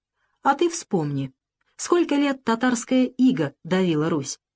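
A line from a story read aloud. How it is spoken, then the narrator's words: Quiet. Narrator (Russian): она тихо договорила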